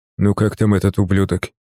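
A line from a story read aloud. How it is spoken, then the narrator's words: Quiet question. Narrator (Russian): тихо спросил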